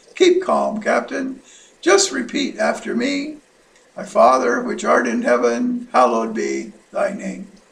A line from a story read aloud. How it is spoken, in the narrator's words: the air traffic controller calmly radioed back